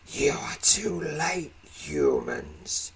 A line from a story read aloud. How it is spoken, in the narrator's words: he hisses